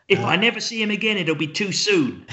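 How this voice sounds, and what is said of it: Poor imitation of another person's voice. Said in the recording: “my terrible impression”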